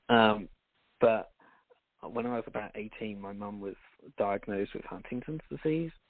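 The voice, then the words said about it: British accent. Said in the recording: “my story starts back in the UK. I think you can't tell from the accent.”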